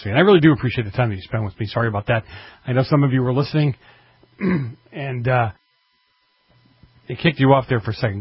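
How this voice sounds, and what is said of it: Hoarse, strained voice. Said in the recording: “God, I'm losing my voice.”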